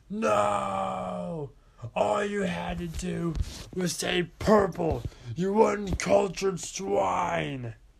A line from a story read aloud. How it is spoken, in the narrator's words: Purple guy yelled